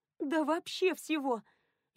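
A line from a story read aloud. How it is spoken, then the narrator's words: Sudden sobbing. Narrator (Russian): Лиэн внезапно разрыдалась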